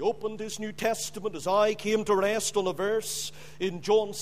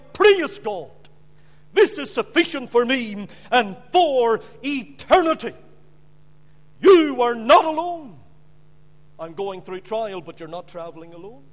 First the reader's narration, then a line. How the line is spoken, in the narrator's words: he cried